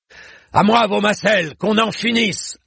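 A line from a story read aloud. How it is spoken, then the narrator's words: Barking command. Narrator (French): aboya le connétable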